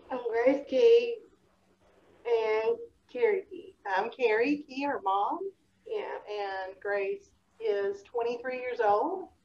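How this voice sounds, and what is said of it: Slight Southern American accent. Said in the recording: “you may hear the little accent ... we have a little southern accent ... We like to think it's charming”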